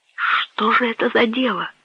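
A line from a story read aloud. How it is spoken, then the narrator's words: Whispered, young man. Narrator (Russian): прошептал молодой человек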